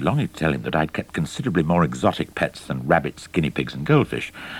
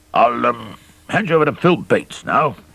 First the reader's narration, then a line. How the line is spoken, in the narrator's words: boomed the captain